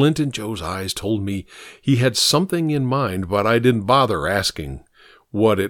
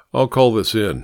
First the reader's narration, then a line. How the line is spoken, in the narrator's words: I said